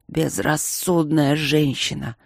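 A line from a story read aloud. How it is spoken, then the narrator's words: Dragon's growl. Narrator (Russian): рыкнул дракон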